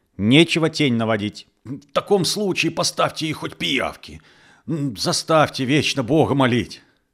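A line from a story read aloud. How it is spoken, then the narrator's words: Angry shout. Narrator (Russian): Фельдшер вспылил и крикнул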